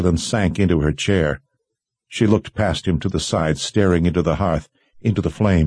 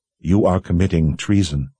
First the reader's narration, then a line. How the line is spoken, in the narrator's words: said in a flat tone